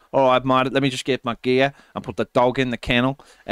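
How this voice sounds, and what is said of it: Poor imitation of another's accent. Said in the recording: “That's a terrible accent.”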